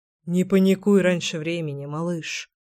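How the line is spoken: Mutter. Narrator (Russian): пробормотал Гром

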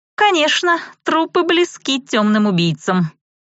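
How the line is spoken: Wry snort. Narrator (Russian): хмыкнула Рэй

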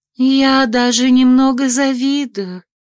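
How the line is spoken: Dreamy sigh. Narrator (Russian): мечтательно вздохнула Калли

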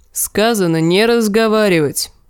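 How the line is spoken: Grumbling. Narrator (Russian): проворчал гребец

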